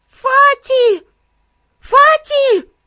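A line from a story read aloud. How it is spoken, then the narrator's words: Loud shout. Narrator (Russian): громко закричала она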